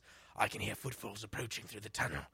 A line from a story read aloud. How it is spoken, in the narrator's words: growled Grignr in a hushed tone